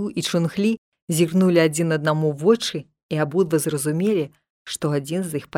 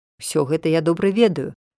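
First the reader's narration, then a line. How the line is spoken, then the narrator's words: Calm. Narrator (Belarusian): спакойна сказаў Чунг-лі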